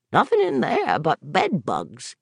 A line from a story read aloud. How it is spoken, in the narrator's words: Gary said and cackled again